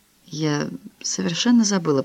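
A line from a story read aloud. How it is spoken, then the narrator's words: Whisper. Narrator (Russian): прошептала Франсуаза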